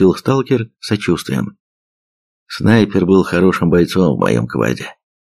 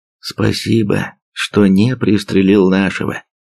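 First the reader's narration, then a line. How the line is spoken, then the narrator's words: Plain. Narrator (Russian): ответил пепеловец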